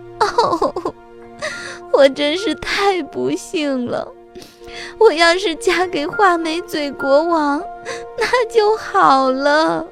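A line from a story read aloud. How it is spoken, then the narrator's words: Crying. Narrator (Chinese): 公主 又哭道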